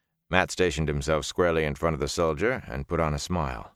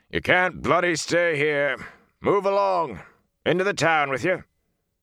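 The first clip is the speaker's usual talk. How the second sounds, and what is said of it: Hoarse shouting soldier voice. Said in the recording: “shouting in a hoarse voice.”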